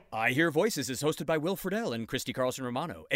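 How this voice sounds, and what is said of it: Announcer voice. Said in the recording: “that was my announcer voice.”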